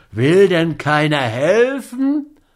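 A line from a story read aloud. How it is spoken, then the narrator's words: Desperate cry. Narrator (German): rief Scott in Verzweiflung aus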